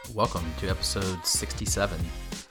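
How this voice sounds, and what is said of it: Announcer-style radio voice. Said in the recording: “I'm getting really good at that radio voice”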